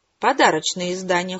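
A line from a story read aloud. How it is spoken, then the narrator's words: Cold, curt. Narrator (Russian): холодно отрезала Красная Королева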